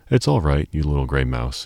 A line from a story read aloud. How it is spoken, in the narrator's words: he said, laughing rather pityingly